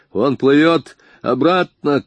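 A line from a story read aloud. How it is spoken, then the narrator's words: Distant shout. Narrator (Russian): крикнул охранник с того берега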